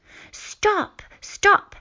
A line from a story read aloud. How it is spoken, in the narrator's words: shouted Thorin, said Mum, reading aloud